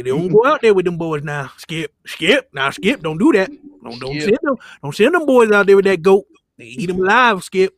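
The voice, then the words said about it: Shannon Sharpe impression. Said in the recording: “I love me some Shannon Sharp, man. ... Shannon Sharp is amazing. ... Doing that voice hurts, though.”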